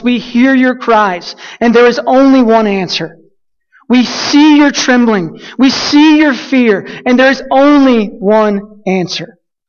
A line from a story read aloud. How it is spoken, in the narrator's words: At the top of their lungs